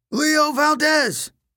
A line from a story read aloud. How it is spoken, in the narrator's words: Coach Hedge yelled from the front